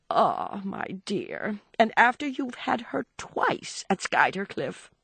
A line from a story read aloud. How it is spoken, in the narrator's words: Archer murmured